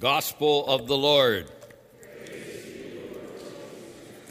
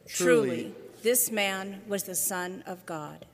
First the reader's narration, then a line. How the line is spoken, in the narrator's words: the centurion who stood facing him saw how he breathed his last, he said